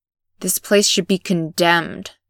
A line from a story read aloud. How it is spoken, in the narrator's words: he half-snarls